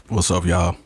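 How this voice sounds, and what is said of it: Deep announcer-style voice. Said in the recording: “We'll take the deep voice. ... The State Farm man voice?”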